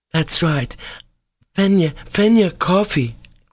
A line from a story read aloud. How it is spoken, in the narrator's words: cried Grushenka